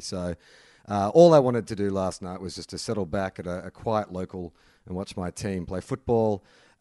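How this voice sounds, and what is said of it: Husky voice. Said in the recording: “You can probably hear my voice is a bit husky”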